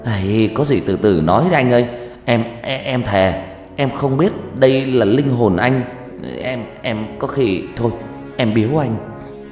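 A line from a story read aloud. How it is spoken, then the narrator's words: Terrified stammering. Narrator (Vietnamese): lão quỷ tỏ ra muôn phần sợ hãi, lắp bắp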